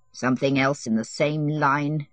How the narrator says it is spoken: he said to himself bitterly

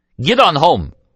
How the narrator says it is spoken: Julio shouted at her

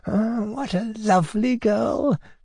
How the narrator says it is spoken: He muttered, melting with satisfaction

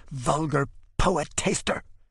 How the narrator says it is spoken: she whispers as though spewing vitriol

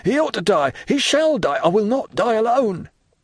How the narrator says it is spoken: A dreadful struggle ensued, Andrea exclaiming

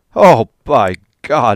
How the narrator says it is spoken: he cried

